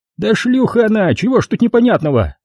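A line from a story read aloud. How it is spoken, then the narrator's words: Shrieking, losing control. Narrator (Russian): Не выдержав, взвизгнул Захарыч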